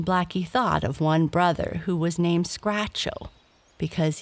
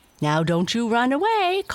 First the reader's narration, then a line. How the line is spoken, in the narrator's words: called the lady, playfully